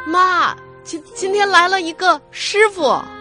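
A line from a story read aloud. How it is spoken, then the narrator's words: Happy loud shout. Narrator (Chinese): 他很高兴的在背后大喊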